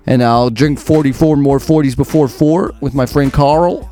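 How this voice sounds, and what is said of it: Put-on American accent, heavy R's. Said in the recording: “That's my best American sentence. ... the easiest way to throw out an American accent is to overuse the letter R.”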